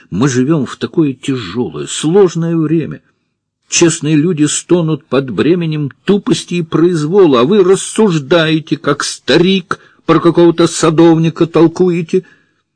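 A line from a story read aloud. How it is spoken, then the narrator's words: Heated exclamation. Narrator (Russian): Забыв об уместном тоне, Варя горячо воскликнула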